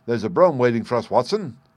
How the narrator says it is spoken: said he

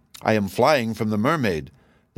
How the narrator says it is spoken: the prince answered in a quaking voice

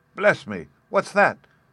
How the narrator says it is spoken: exclaimed Gluck

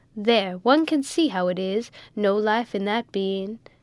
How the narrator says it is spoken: said one

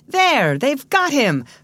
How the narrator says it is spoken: cried Paul

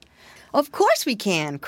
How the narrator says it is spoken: cried Curly Tail

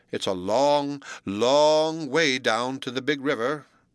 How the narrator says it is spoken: broke in Spotty the Turtle

